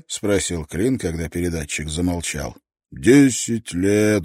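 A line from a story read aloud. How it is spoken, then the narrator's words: Sigh. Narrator (Russian): вздохнул Шеннон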